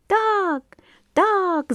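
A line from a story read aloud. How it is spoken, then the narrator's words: Birds and fish shouting together. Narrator (Russian): закричали все и птицы, и рыбы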